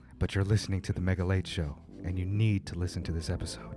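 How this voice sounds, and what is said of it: Altered character voice. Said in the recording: “my voice is different right now ... I also sound just like Mega”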